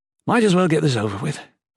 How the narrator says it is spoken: Volney sighed

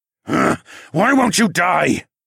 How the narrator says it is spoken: I growled

